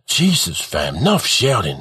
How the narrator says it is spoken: mumbles College

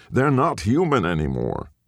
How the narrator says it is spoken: snapped

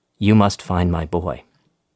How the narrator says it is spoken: she said, in a trembling voice

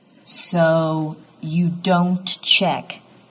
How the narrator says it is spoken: Dix says slowly

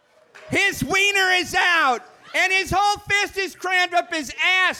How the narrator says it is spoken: she yelled back down the hall

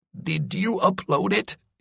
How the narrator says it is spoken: He wheezed

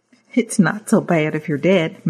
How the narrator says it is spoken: Mary says, chuckling

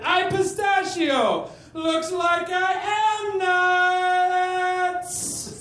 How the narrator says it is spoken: he shouted

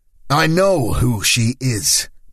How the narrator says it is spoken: Paolo snapped

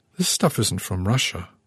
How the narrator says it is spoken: I murmured, hearing my voice tremble

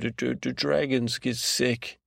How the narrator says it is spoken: Stash laughed again

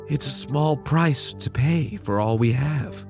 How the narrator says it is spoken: she sighed

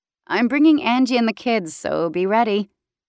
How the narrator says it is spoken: Tasha laughed

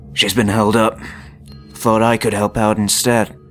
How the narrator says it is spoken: he grunted

